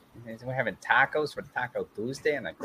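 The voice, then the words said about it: Minnesotan accent. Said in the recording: “tell a joke in your best Minnesotan accent”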